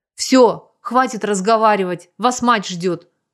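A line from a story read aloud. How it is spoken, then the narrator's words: Rough bark. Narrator (Russian): грубо рявкнул Сергей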